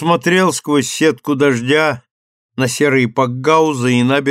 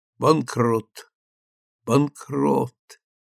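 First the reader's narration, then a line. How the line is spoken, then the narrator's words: Whispering to himself. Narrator (Russian): шептал он про себя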